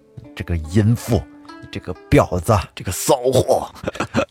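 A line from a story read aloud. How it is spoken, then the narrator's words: Hateful cursing through teeth. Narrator (Chinese): 恨的呀咬牙切齿啊，这嘴里就一直在骂潘金莲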